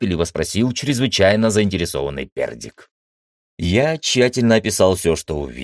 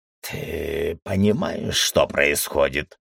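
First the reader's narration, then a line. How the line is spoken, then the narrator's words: Hoarse voice. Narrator (Russian): хрипло заговорил Пердик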